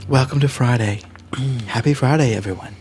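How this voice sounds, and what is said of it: Put-on sexy, sultry voice. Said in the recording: “You like my sexy voice? ... Is that your sexy voice? ... This is my sexy voice.”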